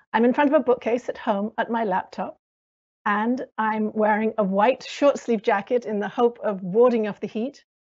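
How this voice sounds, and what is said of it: British American accent. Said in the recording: “as you can probably hear from my accent, I'm British American”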